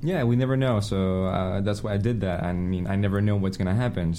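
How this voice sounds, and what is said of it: Unusual, slightly French accent. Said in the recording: “You have unusual accent, little bit Frenchy”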